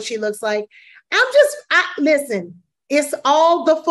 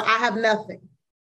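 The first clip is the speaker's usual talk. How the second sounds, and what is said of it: Imitates a singer's voice. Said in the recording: “in my Whitney Houston voice.”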